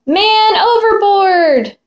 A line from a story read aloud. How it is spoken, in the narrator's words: the sailors cried